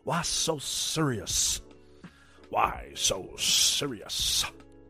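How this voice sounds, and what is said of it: Joker character voice impression. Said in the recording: “That was my Joker impression.”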